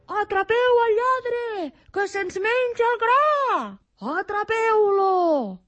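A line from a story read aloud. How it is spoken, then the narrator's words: Furious farmers shouting. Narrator (Catalan): cridaven els pagesos enfurismats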